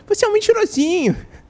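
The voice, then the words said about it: High-pitched little voice imitation. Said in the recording (Portuguese): “o ... falando com a vozinha é. aguda”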